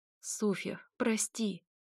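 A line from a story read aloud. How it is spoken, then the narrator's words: Trembling pleading voice. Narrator (Russian): дрожащим голосом просит сестра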